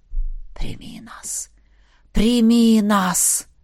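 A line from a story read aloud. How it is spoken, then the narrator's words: Whispering voices. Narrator (Russian): шептали какие-то голоса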